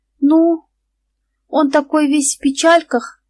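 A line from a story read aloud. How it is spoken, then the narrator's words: Resolute, sighing. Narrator (Russian): сказала Наташка, настраиваясь на подвиг, и вздохнула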